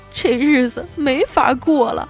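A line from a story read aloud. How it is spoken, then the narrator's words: Wife, sudden crying. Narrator (Chinese): 他老婆突然就哭着说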